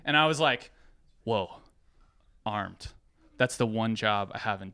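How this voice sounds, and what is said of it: Usual voice. Nothing is said of it.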